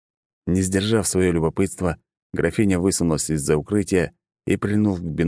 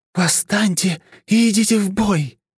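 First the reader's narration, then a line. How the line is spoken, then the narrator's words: Strange hoarse shout. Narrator (Russian): выкрикнула она чужим хриплым голосом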